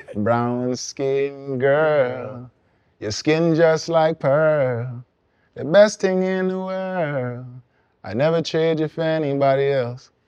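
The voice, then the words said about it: Singing in a Guyanese accent. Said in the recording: “I did that in my Guyanese accent”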